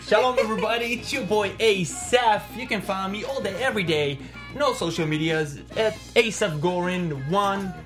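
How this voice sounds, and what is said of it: Speaks with an accent, radio-host style. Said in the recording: “I feel like I'm listening to a radio show when you talk... With an accent. With an accent... I love the accent”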